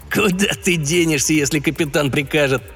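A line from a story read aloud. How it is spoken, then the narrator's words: Short laugh. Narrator (Russian): хохотнул Бобби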